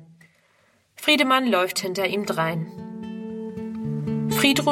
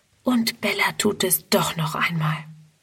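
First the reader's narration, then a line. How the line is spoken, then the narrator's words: Whispering to herself. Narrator (German): Friedrun flüstert vor sich hin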